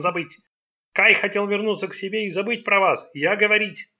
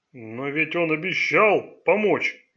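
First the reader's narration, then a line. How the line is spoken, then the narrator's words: Displeased grumble. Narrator (Russian): недовольно буркнул Селита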